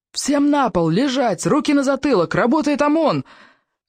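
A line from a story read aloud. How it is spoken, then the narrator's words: Yelling. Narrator (Russian): Орали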